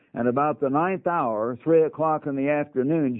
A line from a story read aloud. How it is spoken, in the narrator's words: Jesus cried with a loud voice, saying,